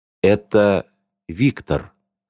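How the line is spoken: Dead, flat voice. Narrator (Russian): сказала мертвым голосом

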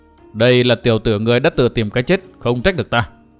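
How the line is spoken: Low muttering voice. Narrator (Vietnamese): y ngưng cười, trầm giọng lẩm bẩm

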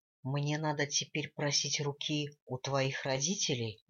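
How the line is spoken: Plain question. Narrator (Russian): спросил Ширайк

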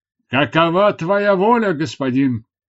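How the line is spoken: Shout. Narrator (Russian): крикнул он

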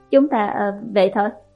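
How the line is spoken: Stammering. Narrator (Vietnamese): Một người bảo vệ lắp bắp nói với viện trưởng Hạ

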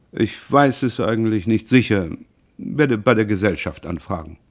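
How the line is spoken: Very calm. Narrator (German): er fügte sehr ruhig hinzu

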